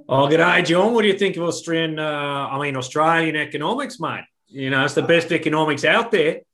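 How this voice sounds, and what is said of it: Put-on Australian accent. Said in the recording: “we can do a good Aussie accent as well ... That's an Australian accent.”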